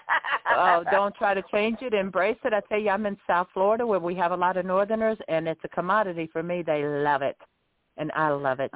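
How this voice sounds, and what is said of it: Southern American accent. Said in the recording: “I'm proud of my Southern accent.”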